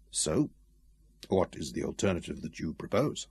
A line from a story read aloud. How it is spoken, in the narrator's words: he asked softly